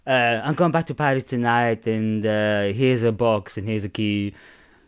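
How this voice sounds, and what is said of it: Inconsistent, shifting put-on accent. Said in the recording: “My accent is not going to be anywhere near anything today ... It will morph between 10 different things all at once.”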